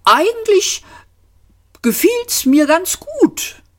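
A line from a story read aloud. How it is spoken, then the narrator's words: Cheerful. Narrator (German): Arthur sagte fröhlich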